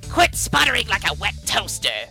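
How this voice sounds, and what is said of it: Cobra Commander character voice. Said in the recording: “did an awesome Cobra Commander impersonation”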